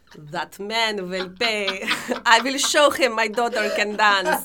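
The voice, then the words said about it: Imitated Russian accent. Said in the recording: “In her like little Russian accent”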